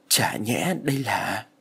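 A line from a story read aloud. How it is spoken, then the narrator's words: Soft exclamation. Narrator (Vietnamese): Loan khẽ thốt lên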